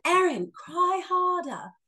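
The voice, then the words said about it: Weak put-on British accent. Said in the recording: “British accent, which I can't really do.”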